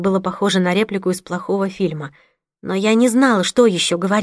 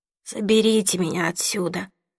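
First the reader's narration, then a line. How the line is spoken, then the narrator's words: Young man's mutter. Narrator (Russian): пробормотал парень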